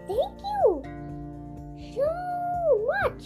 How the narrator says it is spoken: Yasmin cried

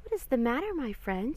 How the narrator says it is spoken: asked kindly

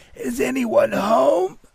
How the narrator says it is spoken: Now through tears, the voice yelled

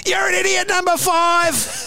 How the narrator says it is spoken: there's this lady who yells out over the fence

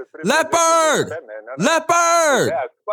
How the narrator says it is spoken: he yells out

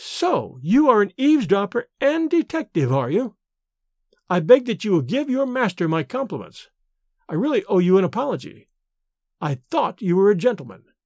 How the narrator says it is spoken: exclaimed with a withering emphasis

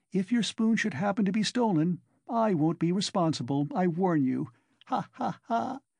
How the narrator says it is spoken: She laughed, in high glee at her sally

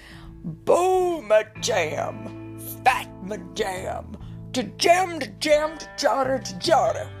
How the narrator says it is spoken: the creature dropped on its knees and bellowed

